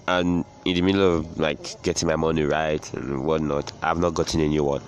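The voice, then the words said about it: Congested voice from a cold. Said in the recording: “I have serious cold and I have cough, catarrh, so my voice may sound some sort of way. Away from the normal, away from the usual.”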